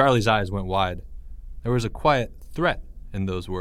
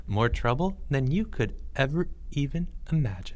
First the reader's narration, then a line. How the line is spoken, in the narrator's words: said Leo softly